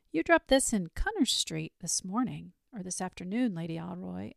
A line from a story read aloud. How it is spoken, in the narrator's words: I said very calmly